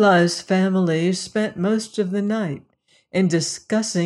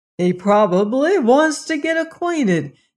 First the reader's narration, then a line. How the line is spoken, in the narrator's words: exclaimed the invalid